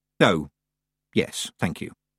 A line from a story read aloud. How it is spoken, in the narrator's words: said Tiffany quietly